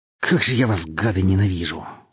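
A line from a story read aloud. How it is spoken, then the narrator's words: Breathed out hatefully. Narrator (Russian): выдохнул Чист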